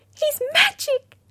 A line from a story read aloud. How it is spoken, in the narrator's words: squeaked Jessie